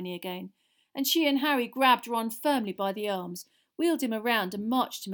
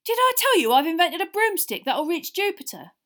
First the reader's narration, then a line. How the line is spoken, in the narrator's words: Ron was yelling